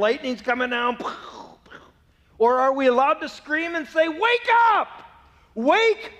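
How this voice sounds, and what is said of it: Usual voice. Nothing is said of it.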